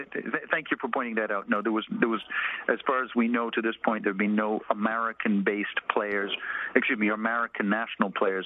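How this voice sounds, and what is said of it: Canadian English accent. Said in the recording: “as you may tell from my accent, I'm a Canadian”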